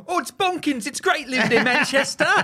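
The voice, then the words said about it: Put-on Mancunian accent. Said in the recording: “he didn't teach Daphne a fucking Mancunian accent”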